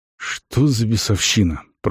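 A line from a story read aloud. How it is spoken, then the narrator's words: Mumbled. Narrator (Russian): пробормотал Арон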